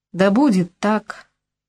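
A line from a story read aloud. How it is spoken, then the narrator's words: Gloomy. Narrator (Russian): мрачно проговорил Лайон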